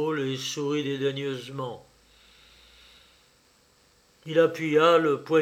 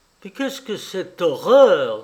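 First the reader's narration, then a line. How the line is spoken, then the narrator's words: Exclaiming. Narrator (French): s'exclama Rosine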